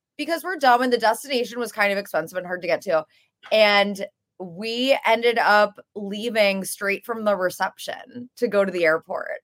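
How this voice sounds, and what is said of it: Slightly raspy voice. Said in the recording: “my voice is a little raspy. I just woke up from a 4 or 5 hour nap”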